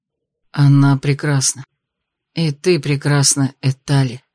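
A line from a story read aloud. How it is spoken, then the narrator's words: Breathy, special tender tone. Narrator (Russian): выдохнул дракон каким-то особенным тоном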